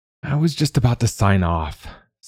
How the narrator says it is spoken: Serena sighed

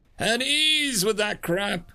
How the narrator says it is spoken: Muckstead bellowed, using his suit's built-in speaker to overwhelm the Terran's enraged bellow

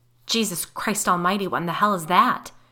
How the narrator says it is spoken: Paul started praying loudly

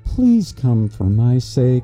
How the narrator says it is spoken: she said wistfully

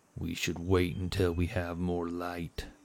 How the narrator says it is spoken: Otto replied sternly

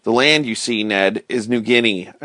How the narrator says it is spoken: I replied

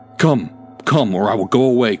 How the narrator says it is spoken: cried the doctor

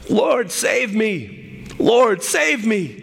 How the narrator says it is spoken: He screamed

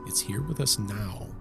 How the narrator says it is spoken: Lorraine, her psychic sensitivities heightened, whispered

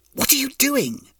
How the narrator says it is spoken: hissed Tanizan

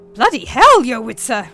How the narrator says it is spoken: exclaimed Flückinger

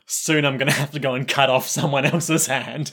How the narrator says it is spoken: he's chuckling

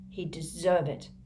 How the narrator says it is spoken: Cedric muttered

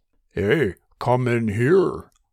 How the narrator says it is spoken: Paul said in a false baritone voice

